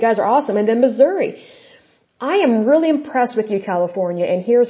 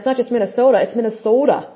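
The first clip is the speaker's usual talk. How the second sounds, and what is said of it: Mimics a Minnesota accent. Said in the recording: “I love that accent.”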